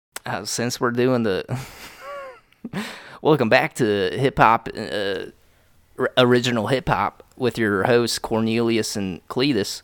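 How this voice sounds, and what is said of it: Put-on country accent. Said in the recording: “I'm doing the fucking country accent.”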